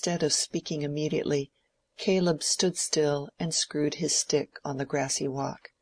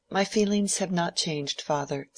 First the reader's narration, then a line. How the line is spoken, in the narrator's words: said Mary, calmly